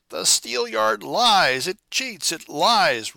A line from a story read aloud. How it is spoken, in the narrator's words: roared the irrepressible Rosette